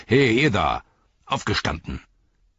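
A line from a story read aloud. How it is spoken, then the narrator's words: Bellowing. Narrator (German): brüllte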